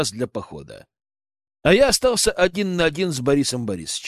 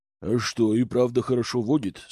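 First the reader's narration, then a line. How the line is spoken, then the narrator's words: Plain. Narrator (Russian): спросил он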